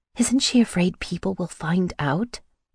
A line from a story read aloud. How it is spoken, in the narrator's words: I asked quietly